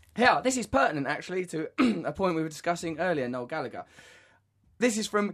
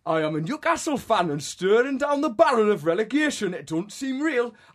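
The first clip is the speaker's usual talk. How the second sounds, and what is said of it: Put-on Geordie accent. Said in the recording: “Shall I insult the Geordie nation by attempting their accent? ... I'd like to apologise to the people of”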